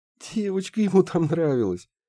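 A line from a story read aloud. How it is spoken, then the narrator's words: Giggling. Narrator (Russian): хихикнула Харми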